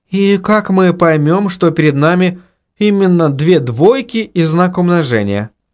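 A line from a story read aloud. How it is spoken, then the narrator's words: Timid question. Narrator (Russian): робко спросила Инга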